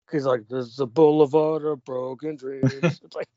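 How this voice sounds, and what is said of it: Weak whiny pop-punk singer impression. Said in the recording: “Green Day's whiny ... Green Day got whinier as they got older ... That's not the best impression I've heard ... I can't really do a Green Day impression”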